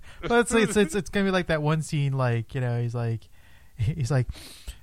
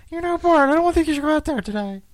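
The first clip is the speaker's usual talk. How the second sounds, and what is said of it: High-pitched Gene Wilder character voice. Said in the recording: “the Gene Wilder character ... Doing his high pitched voice.”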